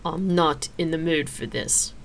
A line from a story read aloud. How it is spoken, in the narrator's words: Xena growled